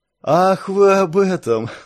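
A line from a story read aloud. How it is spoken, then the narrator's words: Relieved laugh. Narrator (Russian): С облегчением рассмеялся гость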